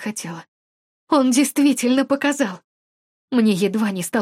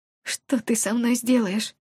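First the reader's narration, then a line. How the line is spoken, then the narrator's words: Hoarse frightened question. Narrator (Russian): хрипло спросила я, испуганно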